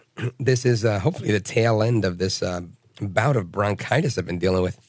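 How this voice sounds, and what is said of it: Raspy hoarse voice. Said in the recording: “my voice is a little raspy ... It's just very raspy ... nursing my raspy voice”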